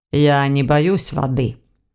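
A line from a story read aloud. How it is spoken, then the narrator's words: Calm correction. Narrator (Russian): спокойно поправил Войтых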